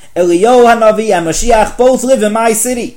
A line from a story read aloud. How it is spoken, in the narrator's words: The poor man had barely opened the door of the Rebbe's study when he excitedly gave him the news